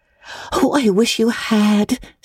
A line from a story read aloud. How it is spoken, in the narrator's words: sighed Anne